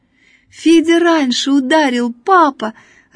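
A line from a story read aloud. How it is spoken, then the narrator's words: Joyful child shouting. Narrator (Russian): радостно кричала Надя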